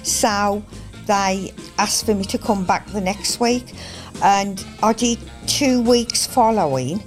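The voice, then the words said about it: Black Country English accent. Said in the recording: “regional accents ... my black country accent”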